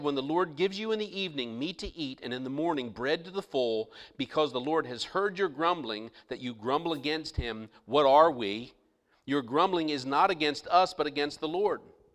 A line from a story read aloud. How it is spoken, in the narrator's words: Moses said